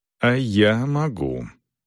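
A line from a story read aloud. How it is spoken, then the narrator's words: Said with a sigh. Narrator (Russian): сказал Селдон и вздохнул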